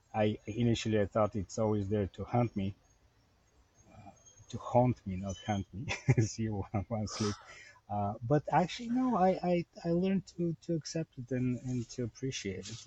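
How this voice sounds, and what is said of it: Bulgarian accent in English. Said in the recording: “I was born in Bulgaria, as you can probably hear from my accent ... I came here when I was 26, so the accent will never go away. It's always there.”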